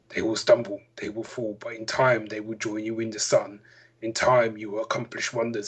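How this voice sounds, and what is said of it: Russell Crowe impression. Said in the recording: “my Russell Crowe impression”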